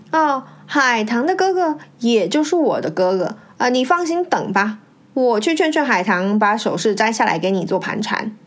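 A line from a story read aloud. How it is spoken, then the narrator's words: Falsely sweet. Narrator (Chinese): 她堆起笑脸，虚情假意地对张玲说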